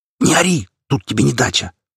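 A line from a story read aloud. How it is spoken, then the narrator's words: Half-whispered growl. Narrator (Russian): полушепотом рыкнул я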